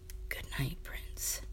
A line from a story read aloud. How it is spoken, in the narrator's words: whispering